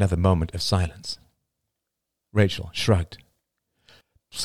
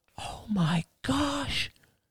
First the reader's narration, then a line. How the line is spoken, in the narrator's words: whispered her mother